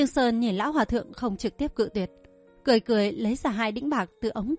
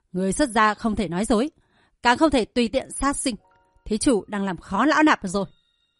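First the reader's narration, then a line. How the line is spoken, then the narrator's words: Feigned anger. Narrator (Vietnamese): Thanh Y ra vẻ tức giận nói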